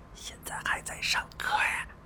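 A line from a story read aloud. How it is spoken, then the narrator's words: Soft, dejected. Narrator (Chinese): 阿汉苦着脸 轻声说道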